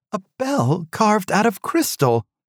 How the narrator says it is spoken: she exclaimed

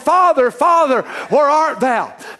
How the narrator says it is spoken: Adam ought to have been hollering

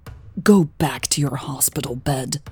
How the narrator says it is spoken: she snarled

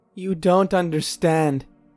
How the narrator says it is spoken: sobbed

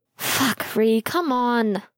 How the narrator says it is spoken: Logan groaned

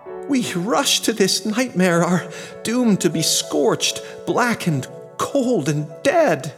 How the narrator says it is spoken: In dreadful verse, it exclaimed

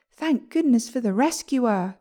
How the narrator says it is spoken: cried the bride

